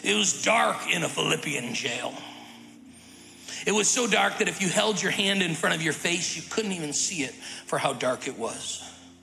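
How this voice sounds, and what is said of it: Imitates another person's preaching voice. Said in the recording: “I'm going to do my best Dr. Hackett impersonation.”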